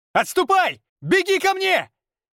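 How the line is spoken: Mental shout. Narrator (Russian): Мысленно кричал я

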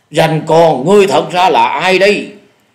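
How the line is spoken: Loud bark. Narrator (Vietnamese): Dạ Điểu Thần Ma lại lớn tiếng quát

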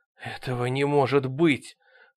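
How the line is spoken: Breathless, strained. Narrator (Russian): с трудом выдохнул Ангус

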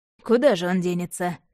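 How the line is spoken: Man's snort. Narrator (Russian): хмыкнул ведьмак

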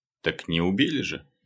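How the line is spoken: Snort. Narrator (Russian): хмыкнул Лёха

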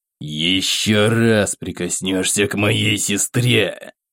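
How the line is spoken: Hissing. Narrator (Russian): прошипел я

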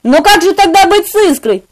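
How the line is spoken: Exclaimed. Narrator (Russian): воскликнул я

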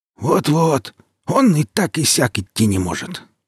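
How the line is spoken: Grumbling beggar. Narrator (Russian): проворчал нищий

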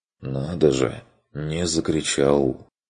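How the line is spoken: Approving remark. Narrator (Russian): отметил он с одобрением

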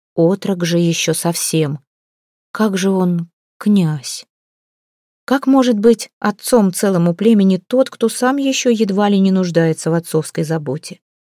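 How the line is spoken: Barely controlled mutter. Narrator (Russian): Едва владея своим голосом, пробормотала она

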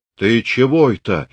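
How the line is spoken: Frightened question. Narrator (Russian): испуганно спрашивал Пантелей Прокофьевич

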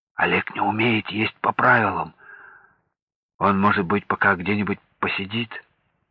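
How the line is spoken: Whisper in ear. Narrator (Russian): склонился к уху Томилова и шепнул

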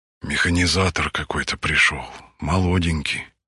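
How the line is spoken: Whisper. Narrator (Russian): зашептала она

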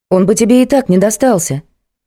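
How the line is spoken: Exclamation. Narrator (Russian): воскликнула Варя

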